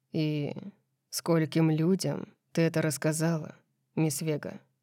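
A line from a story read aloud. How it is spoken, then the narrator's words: Calm question. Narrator (Russian): Спокойно спросил он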